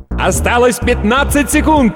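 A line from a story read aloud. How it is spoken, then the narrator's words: Yell. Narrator (Russian): завопил другой диктор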